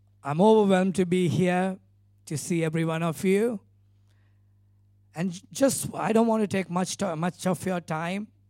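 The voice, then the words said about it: Non-native English accent. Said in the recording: “excuse me for my English accent. I'm not very much good in English because I preach in Sinhala and another language called Tamil, which is my mother tongue”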